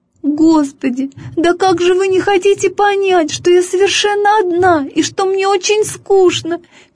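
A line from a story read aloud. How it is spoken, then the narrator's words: Squeaky whining. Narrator (Russian): пищала она каждому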